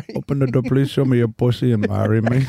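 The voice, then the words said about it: Put-on Indian accent. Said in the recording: “your Indian accent ... This is the big leagues for Indian accents ... I'm putting my Indian against your Indian”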